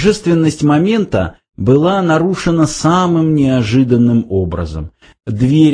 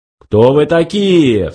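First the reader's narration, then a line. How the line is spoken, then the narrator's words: Menacing question. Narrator (Russian): грозно спросил Лангвилл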